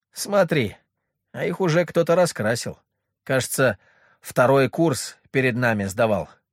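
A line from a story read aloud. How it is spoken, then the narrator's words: Said with a snort. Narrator (Russian): хмыкнув, сказал Леха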